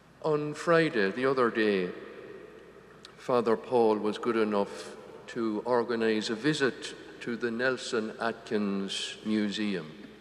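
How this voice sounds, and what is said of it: Irish accent. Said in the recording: “this Irish accent”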